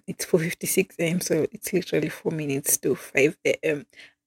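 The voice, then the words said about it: Soft whispered speech. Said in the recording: “I'm kind of whispering because it's like 5 a.m.”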